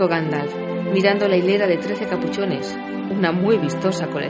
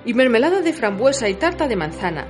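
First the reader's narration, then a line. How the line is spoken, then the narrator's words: Plain. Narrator (Spanish): dijo Bifur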